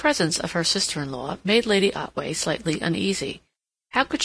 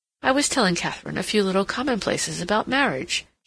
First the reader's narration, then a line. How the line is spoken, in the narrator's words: she said with a little laugh